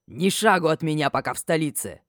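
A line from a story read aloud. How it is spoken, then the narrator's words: Deafening bark. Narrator (Russian): рявкнул так, что уши заложило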